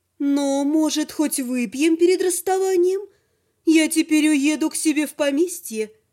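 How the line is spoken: Cooing female voice. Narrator (Russian): проворковала женщина

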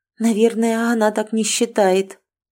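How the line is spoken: Muffled objection. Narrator (Russian): глухо возразила

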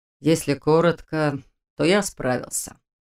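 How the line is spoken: Father, pleased and tired. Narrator (Russian): довольно и устало заявил отец

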